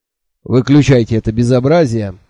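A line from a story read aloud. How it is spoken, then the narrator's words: Stern. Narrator (Russian): строго сказал Джуфин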